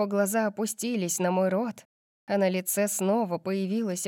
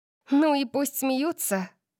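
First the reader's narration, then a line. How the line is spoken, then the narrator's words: Giggling. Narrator (Russian): Я хихикнула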